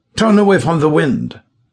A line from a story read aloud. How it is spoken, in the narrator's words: shouted Kohler